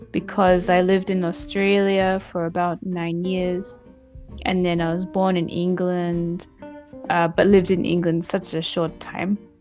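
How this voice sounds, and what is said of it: Mixed British-Australian accent. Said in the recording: “my accent is not Scottish. Scottish person would be like, no, you're not Scottish. It's a mixed accent ... It's not like pure British accent”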